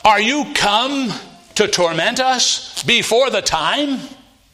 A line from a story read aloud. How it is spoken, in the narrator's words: a legion of demons inside him, and they cried out and said